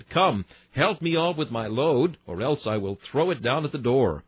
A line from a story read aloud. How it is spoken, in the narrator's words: Henry Erskine, and cried